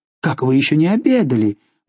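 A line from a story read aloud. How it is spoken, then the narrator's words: Exclaiming. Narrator (Russian): воскликнула она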